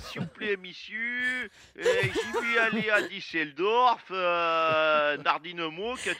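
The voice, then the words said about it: Imitated foreign accent. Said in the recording (French): “un accent comme ça ... t'as pas l'accent du Texas”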